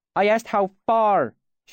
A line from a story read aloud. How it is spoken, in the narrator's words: she snapped at him